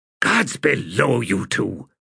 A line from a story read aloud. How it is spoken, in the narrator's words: hissed Quick Ben